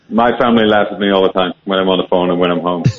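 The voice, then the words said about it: Irish accent with Dutch tinge. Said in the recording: “you've got quite a Dutch accent. I can hear the Irish, but I can't also hear Dutch.”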